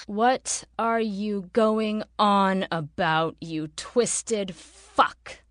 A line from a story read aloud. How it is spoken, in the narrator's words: She spat the last, her body craving sleep